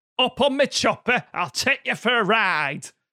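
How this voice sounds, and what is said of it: Put-on Yorkshire British accent. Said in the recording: “He's not just old British Michael. ... From Yorkshire.”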